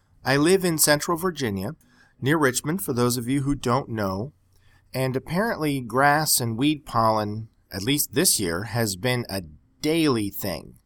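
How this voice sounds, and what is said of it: Snuffly, congested voice. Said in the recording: “my voice sounds kind of bad today. I'm sort of snuffly. I'm having the worst allergy summer of my life ... excuse me if I sound a little sick”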